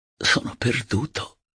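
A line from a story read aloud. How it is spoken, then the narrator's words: Involuntary murmur. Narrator (Italian): Senza volerlo, mormorai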